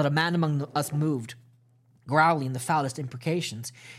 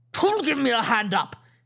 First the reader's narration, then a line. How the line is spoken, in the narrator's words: He roared